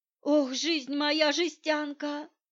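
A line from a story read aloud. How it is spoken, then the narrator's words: Fat woman groaning. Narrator (Russian): простонала толстуха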